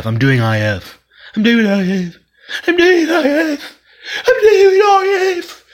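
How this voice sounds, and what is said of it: Odd voice with slight British accent. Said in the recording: “That's a new voice... Can't tell what it is. It's like there's a little bit of British in there.”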